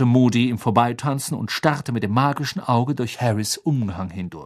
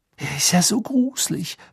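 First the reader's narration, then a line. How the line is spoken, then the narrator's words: Whisper. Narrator (German): flüsterte Parvati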